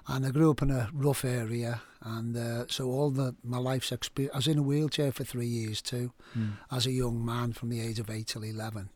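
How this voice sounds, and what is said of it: Liverpool accent. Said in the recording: “I'm from Liverpool, you probably tell I've got an accent.”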